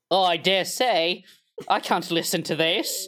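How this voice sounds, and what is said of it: Mock British accent. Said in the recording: “speaking English with a British accent ... My apologies to all not awful British people for that.”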